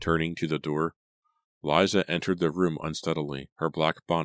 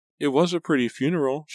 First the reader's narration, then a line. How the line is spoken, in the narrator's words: she stammered